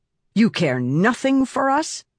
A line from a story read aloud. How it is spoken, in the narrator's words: Silence snapped